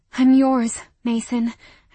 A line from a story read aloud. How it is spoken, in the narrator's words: panted